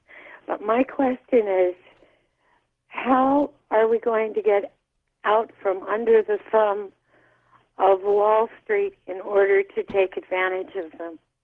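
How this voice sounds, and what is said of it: Congested voice with a cold. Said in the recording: “I have a cold.”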